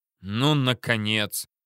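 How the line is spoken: Grumbling. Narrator (Russian): проворчал Мамонтов, увидев искомое

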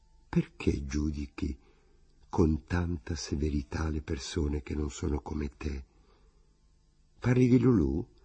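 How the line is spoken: Timid remorseful murmur. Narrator (Italian): quasi preso da rimorso, ho mormorato timidamente

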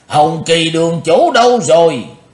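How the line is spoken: Sudden loud shout. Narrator (Vietnamese): Bỗng nhiên Lý Vân Hạo quát lớn

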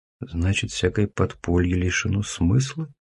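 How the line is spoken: Whisper. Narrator (Russian): прошептал я

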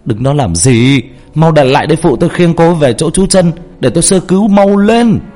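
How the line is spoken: Urgent shouting. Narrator (Vietnamese): Anh Quân Y hét lên

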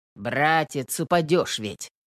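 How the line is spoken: Calm. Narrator (Russian): спокойно молвил Петр

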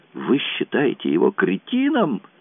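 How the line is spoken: Exclamation. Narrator (Russian): воскликнула, вскочив на ноги

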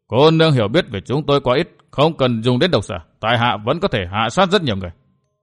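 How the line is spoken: Angry. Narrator (Vietnamese): Ma Sa Lý tức giận tiếp lời

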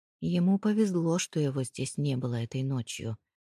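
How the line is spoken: Gloomy. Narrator (Russian): мрачно проговорил Хедман

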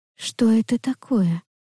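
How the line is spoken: Whisper. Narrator (Russian): прошептала я

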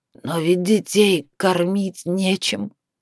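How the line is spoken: Hoarse pleading old man. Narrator (Russian): прохрипел дед, пытаясь объяснить тем, кто не способен на сострадание

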